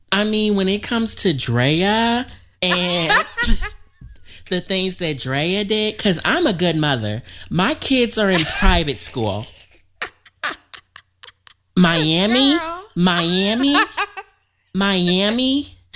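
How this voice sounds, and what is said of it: Impression of Sunday. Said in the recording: “You do a mean Sunday card impression.”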